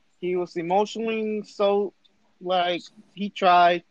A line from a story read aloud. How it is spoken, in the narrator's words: he cries